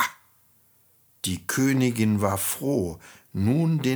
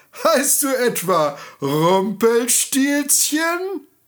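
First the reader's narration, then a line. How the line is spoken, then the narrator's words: Queen calling, laughing. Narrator (German): rief die Königin lachend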